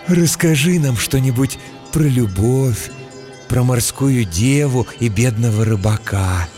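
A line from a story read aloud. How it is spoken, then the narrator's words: Dreamy breathy stout woman. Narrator (Russian): мечтательно выдохнула дородная Эльза, жена трактирщика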